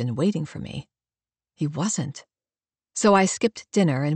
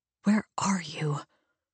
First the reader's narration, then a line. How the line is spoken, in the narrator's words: mutter under my breath